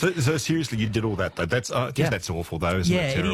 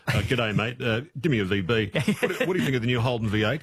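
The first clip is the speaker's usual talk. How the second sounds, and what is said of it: Caricatured blokey straight-man voice. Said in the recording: “impersonate a caricature of a straight man”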